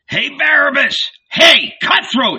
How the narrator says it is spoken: he shouted

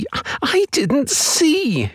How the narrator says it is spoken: she cried

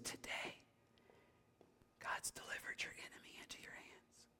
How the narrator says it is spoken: Abishai says, obviously whispering to David, he says

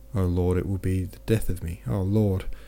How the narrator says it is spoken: moaned the man in a louder voice

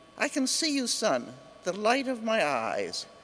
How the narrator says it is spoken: He exclaimed

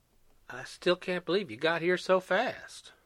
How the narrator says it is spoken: Teddy said again softly

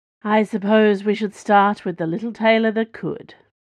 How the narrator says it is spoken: said Ro, in that low, confident drawl of hers that had driven Dana to the point of rage back on Myung Station

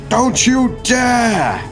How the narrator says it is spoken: from a distance and shouts out after them

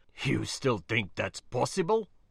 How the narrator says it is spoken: He grunted in reply

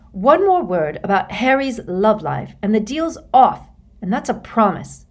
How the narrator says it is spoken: said Hermione irritably

